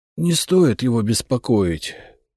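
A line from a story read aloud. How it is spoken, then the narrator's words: Hoarse. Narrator (Russian): хриплым голосом ответил я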